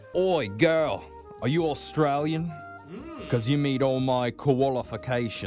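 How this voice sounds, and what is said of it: Bad fake Australian accent. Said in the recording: “I have a really bad Australian accent right now... his fake accent's dreamy”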